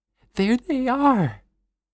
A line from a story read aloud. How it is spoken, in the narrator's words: Natalie squeaks